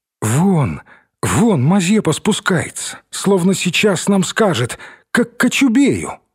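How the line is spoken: Exclaiming. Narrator (Russian): воскликнула Наташа

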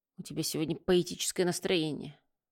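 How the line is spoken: Grumbled. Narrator (Russian): буркнул Бильяр

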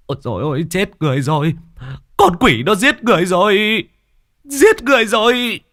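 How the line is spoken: Panicked screaming. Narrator (Vietnamese): hốt hoảng, miệng liên tục gào thét

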